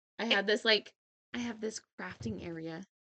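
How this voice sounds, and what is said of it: Whispering. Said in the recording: “I don't know why I'm whispering, as if like it's a secret”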